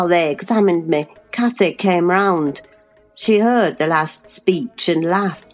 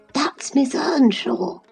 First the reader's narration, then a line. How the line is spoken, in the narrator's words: he whispered to his mother